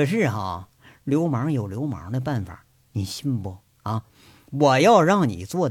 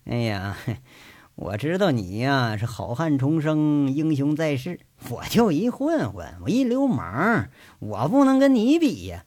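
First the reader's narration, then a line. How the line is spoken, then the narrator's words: Sly teasing laugh. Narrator (Chinese): 杨伟变得是坏笑无比，笑着在这逗赵三刀说了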